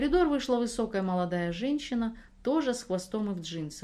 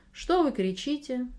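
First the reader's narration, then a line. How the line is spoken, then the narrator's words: Calm question. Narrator (Russian): спокойно спросила она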